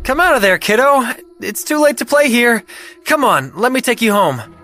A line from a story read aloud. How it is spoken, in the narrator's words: yelled